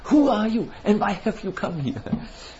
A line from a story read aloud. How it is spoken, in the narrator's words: the devotees were laughing and were totally in ecstasy, shivering, and they said